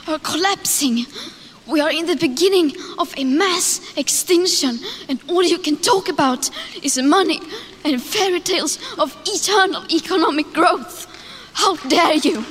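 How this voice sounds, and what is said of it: Non-American accent. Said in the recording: “You can hear her accent. She's not American”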